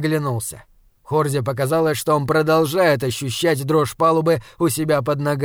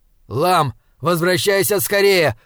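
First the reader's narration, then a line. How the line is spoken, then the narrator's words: Shouted into helmet microphone. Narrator (Russian): прокричал Хорза в воздух и в микрофон своего шлема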